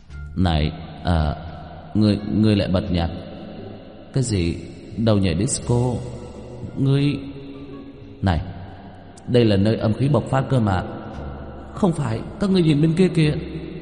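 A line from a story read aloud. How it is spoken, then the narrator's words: Stammering ghost. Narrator (Vietnamese): Một con quỷ trợn mắt, miệng lắp bắp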